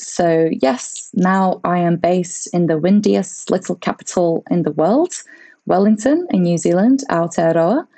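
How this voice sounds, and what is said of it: Mixed Latvian, British, New Zealand accent. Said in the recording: “a slightly strange accent. I have a little bit of Latvian, a little bit of British, and definitely starting to pick up some of the mannerisms from this part of the world”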